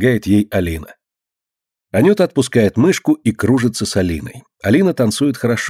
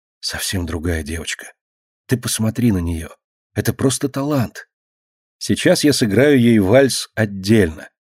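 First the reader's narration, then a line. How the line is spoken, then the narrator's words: Whisper. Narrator (Russian): шепотом говорит Марина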